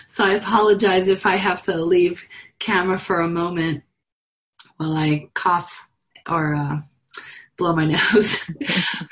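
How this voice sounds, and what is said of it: Hoarse, fading voice. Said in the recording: “I'm on the tail end of a cold and I'm losing my voice and I'm coughing quite a bit.”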